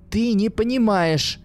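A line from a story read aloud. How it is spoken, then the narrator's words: Desperate scream. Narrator (Russian): в отчаянии закричала Катерина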